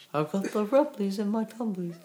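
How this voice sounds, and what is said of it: Bad Winnie the Pooh impression. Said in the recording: “that was a very bad Winnie the Pooh impression”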